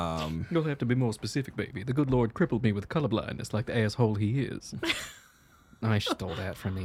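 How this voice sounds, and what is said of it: Usual voice. Nothing is said of it.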